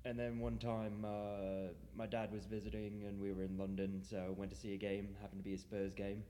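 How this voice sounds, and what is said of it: English accent mixed with Australian, American. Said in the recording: “It's English, but kind of mixed with now a bit of muddled with a bit of Australian ... and then obviously got a bit of American accent thrown in as well now.”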